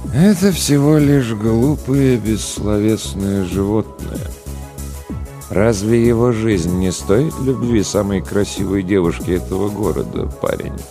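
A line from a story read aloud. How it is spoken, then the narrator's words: Sad sigh. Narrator (Russian): Грустно вздохнул Голубоглазый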